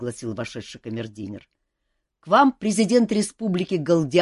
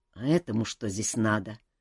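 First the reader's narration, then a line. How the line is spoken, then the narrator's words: Grumbling. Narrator (Russian): проворчал Шелар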